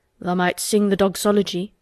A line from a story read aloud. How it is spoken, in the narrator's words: he suggested in his driest grunt